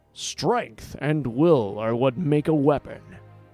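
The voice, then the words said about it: Terrible impression of Jax. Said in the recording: “my terrible impression”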